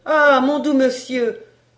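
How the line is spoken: Sad moaning housekeeper. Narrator (French): gémissait l'intendante avec de tristes

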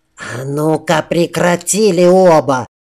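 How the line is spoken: Hissed. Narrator (Russian): зашипела на нас Катрин, стоявшая чуть в сторонке

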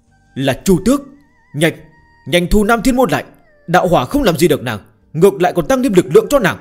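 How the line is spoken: Fearful loud cry. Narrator (Vietnamese): Dực La Thiên Vương cảm nhận được sự sợ hãi do thiên địch mang tới mà lớn tiếng la lên

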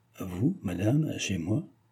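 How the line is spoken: Grave, secretly satisfied voice. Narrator (French): dit-il d'une voix grave, où perçait néanmoins une secrète satisfaction

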